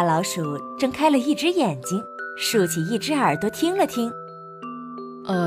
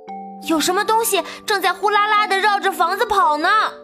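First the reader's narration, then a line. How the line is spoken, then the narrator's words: Small creature shouting. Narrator (Chinese): 小老鼠喊着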